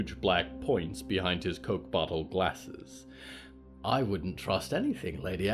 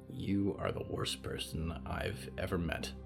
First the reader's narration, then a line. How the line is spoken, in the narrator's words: Olivier muttered